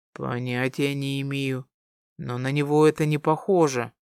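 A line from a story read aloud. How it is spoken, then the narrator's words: Smirking mutter. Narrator (Russian): пробормотал Дамиан, ухмыляясь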